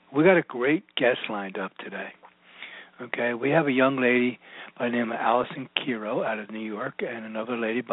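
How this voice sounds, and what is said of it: Strained, lowered voice. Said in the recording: “apologize for my voice today. I've been dealing with some allergies ... It kind of takes my voice down.”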